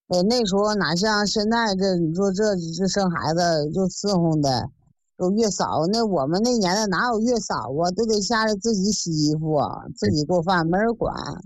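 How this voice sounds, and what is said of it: Northern Chinese accent. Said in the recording (Chinese): “听你这口音还是北方的”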